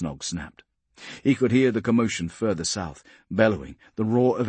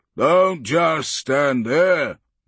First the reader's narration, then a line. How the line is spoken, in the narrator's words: the knob bellowed